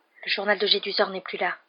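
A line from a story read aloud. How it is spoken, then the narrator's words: Whispered in ear. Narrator (French): chuchota-t-il à l'oreille de Ron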